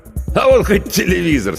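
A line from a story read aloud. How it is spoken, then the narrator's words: Laughing. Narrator (Russian): смеялся Федор Иванович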